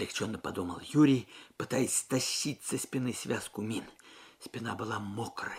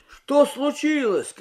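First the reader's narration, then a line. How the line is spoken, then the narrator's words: Confused shout. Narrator (Russian): крикнул Юрий, ничего не понимая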